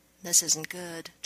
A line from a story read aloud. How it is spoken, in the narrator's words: John muttered